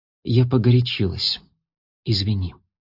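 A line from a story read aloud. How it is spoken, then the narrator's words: Soft. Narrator (Russian): сказала она тихо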